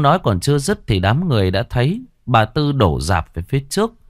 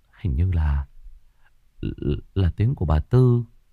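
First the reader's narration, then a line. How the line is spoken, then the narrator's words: Muttering. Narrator (Vietnamese): Cậu Đức lẩm bẩm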